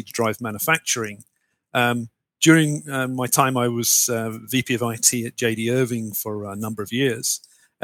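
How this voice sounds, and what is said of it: British accent, southeast England. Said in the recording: “based on your accent, I know you're not originally from New Brunswick ... I'm a, a, Brit, as you can probably guess from the accent ... grew up in the southeast of England”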